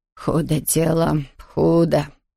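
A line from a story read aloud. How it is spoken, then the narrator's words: Muttering. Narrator (Russian): бормотала она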